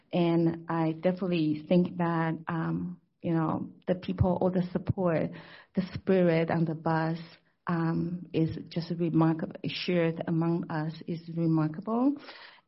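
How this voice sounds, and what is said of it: Hoarse, partly lost voice. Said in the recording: “I haven't really completely recovered from this tour, as you can tell. I kind of lose my voice because, I over-talked and too excited.”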